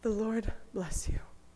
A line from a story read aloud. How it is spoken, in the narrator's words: whispered gently